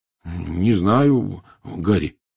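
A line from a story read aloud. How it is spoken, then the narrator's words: Uncertain reply. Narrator (Russian): неуверенно ответил Рон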